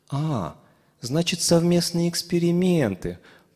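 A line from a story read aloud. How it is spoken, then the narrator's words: Purring. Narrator (Russian): промурлыкала Лия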